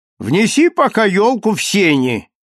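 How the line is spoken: Shout through door. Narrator (Russian): крикнула через дверь жена

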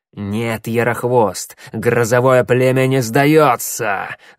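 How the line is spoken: Hissing reply. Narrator (Russian): зашипел в ответ коготь

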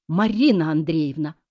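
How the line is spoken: Exclaiming. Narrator (Russian): воскликнула Надя

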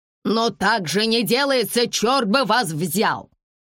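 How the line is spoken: Angry middle-aged man shouting. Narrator (Russian): кричал весь красный от гнева мужчина лет 50

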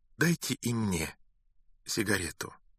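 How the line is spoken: Flat colorless voice. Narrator (Russian): бесцветным голосом произнесла женщина

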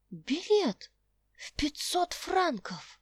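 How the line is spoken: Astonished exclamation. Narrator (Russian): воскликнула Роза изумленно

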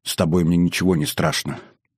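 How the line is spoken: Whisper. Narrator (Russian): прошептала любимая

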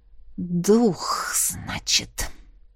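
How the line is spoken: Hissing through teeth. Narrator (Russian): прошипела сквозь зубы

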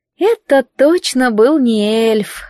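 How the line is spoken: Disappointed drawl. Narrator (Russian): разочарованно протянула Лил

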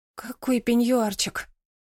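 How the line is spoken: Muttering. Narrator (Russian): пробормотала Марина

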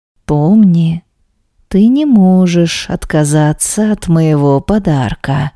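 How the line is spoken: Husband's slow ear-whisper. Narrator (Russian): медленно произнес муж на ухо

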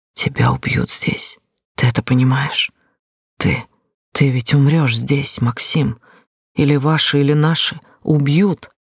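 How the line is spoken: Tearful whisper. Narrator (Russian): прошептала я, чувствуя, как по щекам катятся слезы

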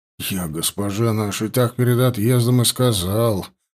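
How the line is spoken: Grumbling. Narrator (Russian): продолжал ворчать Бокша

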